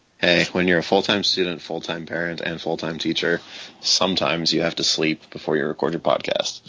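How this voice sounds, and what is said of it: Sleepy, lower-pitched voice. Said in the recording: “being sleepy ... my voice is half an octave lower”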